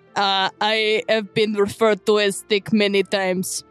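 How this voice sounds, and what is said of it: Very thick put-on accent. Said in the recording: “the accent. ... the accent that is very thick in your voice.”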